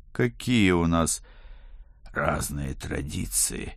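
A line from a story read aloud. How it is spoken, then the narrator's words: Rasping wheeze. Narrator (Russian): прохрипел я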